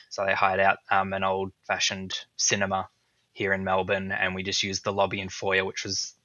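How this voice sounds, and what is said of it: Australian accent. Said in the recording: “if you can't tell my accent, I'm in Melbourne.”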